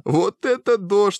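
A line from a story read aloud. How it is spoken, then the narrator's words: Laughing loudly. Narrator (Russian): хохотала Лола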